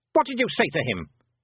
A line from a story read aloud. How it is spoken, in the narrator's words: snapped the Queen